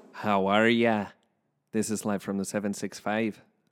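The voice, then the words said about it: Put-on Irish accent. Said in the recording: “it's my Irish accent. I don't think my Irish accent's that bad”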